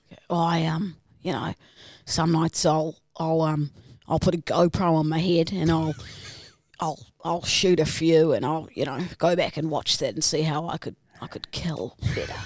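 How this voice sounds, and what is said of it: Put-on Australian accent, darker tone. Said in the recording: “I want it a bit darker... And more Australian accent.”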